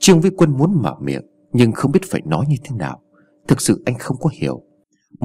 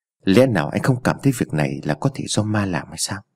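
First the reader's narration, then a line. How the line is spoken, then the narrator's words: Soft question. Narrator (Vietnamese): Vương Kiện khẽ hỏi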